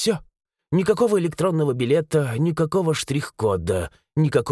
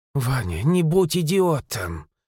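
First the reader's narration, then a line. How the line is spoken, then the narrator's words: Sighing. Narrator (Russian): вздохнула она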